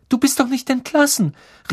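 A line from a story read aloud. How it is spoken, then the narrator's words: Exclaimed breathlessly. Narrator (German): rief Hermine und hielt den Atem an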